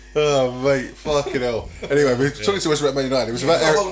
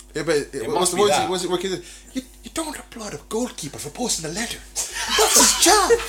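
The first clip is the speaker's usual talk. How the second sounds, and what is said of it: Imitates another person's voice. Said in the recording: “That's a good impression.”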